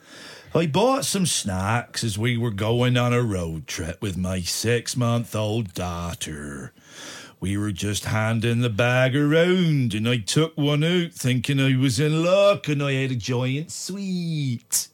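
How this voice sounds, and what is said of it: Put-on Somerset English accent. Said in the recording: “I'm going to do an accent here. ... Somerset. Somerset.”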